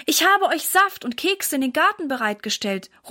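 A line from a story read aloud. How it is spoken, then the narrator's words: Calling out. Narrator (German): ruft Mama ihnen zu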